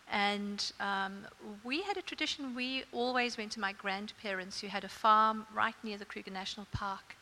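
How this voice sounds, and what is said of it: South African accent. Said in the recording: “gathered by your accent, you didn't grow up in Australia ... I grew up in South Africa, as you can hear.”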